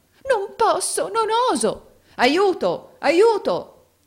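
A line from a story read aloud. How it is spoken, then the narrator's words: Exclaiming. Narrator (Italian): esclamò Rodolfo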